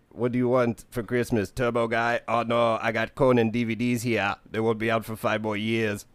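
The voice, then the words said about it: Poor Arnold Schwarzenegger impression. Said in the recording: “I can't do Arnold ... Yeah, I can't do it. ... Not sure if I'm more appalled by your accent”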